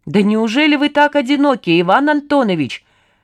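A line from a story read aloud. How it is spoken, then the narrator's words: Shouting to another room. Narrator (Russian): крикнул в кухню Саня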